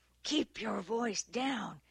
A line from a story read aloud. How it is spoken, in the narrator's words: ordered in a harsh whisper